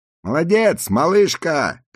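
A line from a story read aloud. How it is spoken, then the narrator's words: Several voices shouting. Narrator (Russian): кричали они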